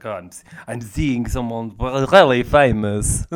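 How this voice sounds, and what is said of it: Imitated Latino accent. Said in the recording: “quite a Latino boyfriend ... Is that the accent you're doing?”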